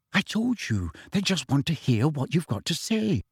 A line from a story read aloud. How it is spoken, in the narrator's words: said Hermione soothingly